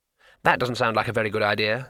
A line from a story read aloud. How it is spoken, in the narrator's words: said Twoflower